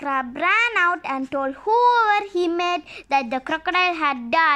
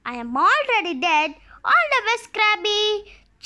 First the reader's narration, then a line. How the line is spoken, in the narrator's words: chuckled the crocodile